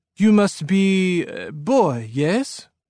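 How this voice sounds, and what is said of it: French-sounding accent. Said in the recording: “in a French-sounding accent similar to my dad's”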